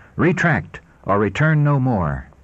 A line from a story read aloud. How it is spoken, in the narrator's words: declared in a haughty and angry tone